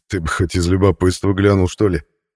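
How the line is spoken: Forced out through laughter. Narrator (Russian): выдавил майор сквозь смех

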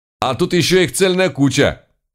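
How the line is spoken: Shouted. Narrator (Russian): крикнул он

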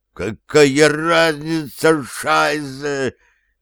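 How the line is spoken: Hoarse, muffled against ground. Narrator (Russian): хрипел, уткнувшись в землю Унтер

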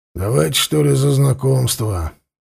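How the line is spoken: Skeptical grunt. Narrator (Russian): Лёшка хмыкнул

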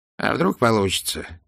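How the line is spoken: Quiet, hesitant. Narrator (Russian): тихо произнес он наконец

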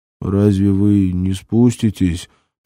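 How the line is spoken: Mumbling. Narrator (Russian): промямлил вчерашний грозный грач-налетчик

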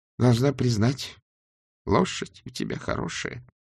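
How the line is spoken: Trembling voice. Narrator (Russian): дрожащим голосом сказала госпожа Флитворд

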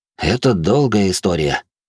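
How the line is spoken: Sighing. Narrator (Russian): вздохнул я

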